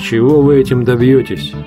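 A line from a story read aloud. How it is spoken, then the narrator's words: Plain. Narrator (Russian): спросил Грифриф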